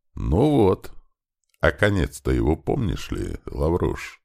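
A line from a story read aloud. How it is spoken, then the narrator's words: Sudden quiet question. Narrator (Russian): вдруг тихо спросил сотник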